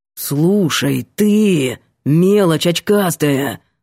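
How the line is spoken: Growled. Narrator (Russian): прорычал Ванька

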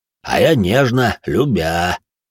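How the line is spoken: Pleased rumble. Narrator (Russian): Довольно прогудел Салих

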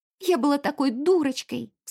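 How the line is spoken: Sobbing. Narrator (Russian): всхлипнула

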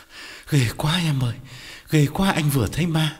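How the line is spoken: Breathless frightened reply. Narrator (Vietnamese): Quán thở hổn hển đáp

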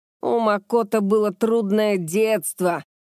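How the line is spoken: Straining growl. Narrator (Russian): Райден зарычал, пытаясь поднять другую балку

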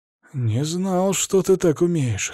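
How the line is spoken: Hoarse reply. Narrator (Russian): хрипло отозвался он

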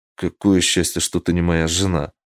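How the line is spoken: Grumble. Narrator (Russian): буркнул я

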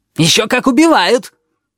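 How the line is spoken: Shouting at each other. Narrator (Russian): Они орали друг на друга

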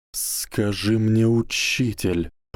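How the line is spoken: Hissing. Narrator (Russian): прошипел Гарри

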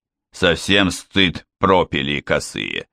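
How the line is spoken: Smirking mutter, general. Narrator (Russian): с усмешкой пробормотал генерал

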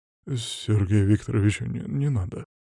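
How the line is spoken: Mumbling. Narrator (Russian): забормотал

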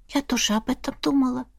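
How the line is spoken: Whispered. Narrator (Russian): прошептала Эрма

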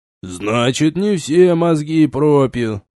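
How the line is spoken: Grumbling. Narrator (Russian): проворчал мессир

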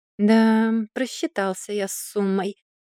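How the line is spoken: Drawling. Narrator (Russian): протянул Маркус

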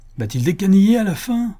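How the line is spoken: Sick woman exclaiming. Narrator (French): s'écria la malade

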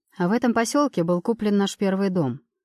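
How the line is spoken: Calm narration. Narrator (Russian): рассказывает довольно спокойным голосом

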